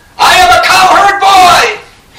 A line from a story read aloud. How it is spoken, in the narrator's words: some of them screamed out